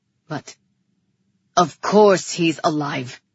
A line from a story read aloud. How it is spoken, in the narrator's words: Rian growled